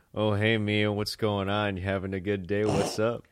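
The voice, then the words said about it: Imitates another person's voice. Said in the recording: “That's a really good impression. ... It's almost really good.”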